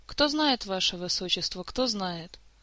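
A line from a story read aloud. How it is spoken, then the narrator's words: Sorrowful sigh. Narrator (Russian): горестно вздохнул мэтр Истран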